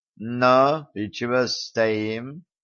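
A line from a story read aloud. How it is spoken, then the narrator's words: Youth's lazy drawl through teeth. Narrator (Russian): лениво процедил юнец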